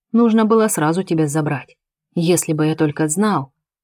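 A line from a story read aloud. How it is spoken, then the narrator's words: Calm. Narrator (Russian): спокойно произносит Ахмед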